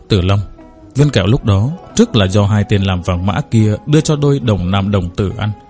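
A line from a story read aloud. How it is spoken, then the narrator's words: Startled quiet reminder. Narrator (Vietnamese): bỗng nhiên giật mình, nhỏ giọng nhắc nhở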